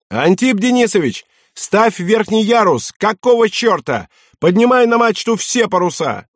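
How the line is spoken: Navigator's shout. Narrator (Russian): штурман крикнул

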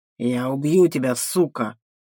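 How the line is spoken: Male growl. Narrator (Russian): мужчина прорычал

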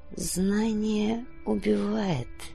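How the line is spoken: Barely audible echo. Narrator (Russian): Совсем тихо, почти неразличимым эхом отозвался

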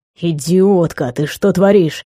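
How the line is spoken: Low voice. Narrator (Russian): сказал он низким голосом

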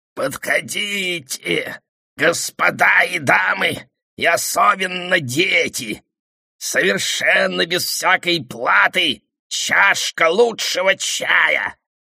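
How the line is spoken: Sudden creaky voice. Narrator (Russian): Вдруг проскрипел он

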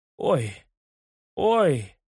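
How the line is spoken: Moaned. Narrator (Russian): простонал я

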